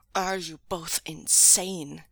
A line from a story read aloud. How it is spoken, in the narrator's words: Nia Mingzhu growled furiously